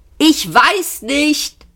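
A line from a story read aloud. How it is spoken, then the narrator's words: Shouted back. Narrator (German): brüllte Ford zurück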